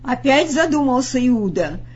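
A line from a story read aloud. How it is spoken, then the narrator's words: Clear-voiced shouting. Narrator (Russian): кричал Петр своим ясным голосом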